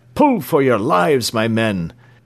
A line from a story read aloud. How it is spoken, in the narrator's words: cried James Playfair, urging on the sailors